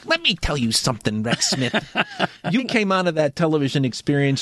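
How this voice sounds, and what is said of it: Imitates another person's voice. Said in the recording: “This is ... Alan. ... That was my Alan impression,”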